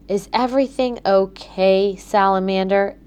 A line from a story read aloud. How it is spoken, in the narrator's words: asked Gabby